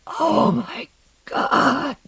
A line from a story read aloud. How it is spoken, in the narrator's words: whispered